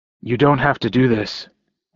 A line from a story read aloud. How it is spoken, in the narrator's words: I said hoarsely